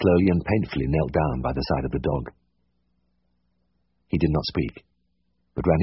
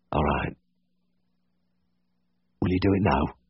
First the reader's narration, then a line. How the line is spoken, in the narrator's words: he said huskily